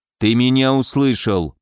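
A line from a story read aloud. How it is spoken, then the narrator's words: More menacing. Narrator (Russian): более грозно произнес Сергей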